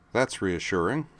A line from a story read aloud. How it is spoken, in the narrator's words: said Terror dryly